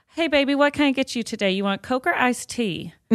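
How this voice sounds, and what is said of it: Put-on Southern accent. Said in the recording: “oh, you just hit that Southern accent”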